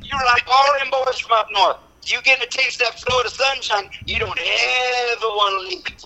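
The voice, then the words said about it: Foghorn Leghorn-style Alabama drawl. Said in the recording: “that Foghorn, Leghorn, Alabama barbecue accent.”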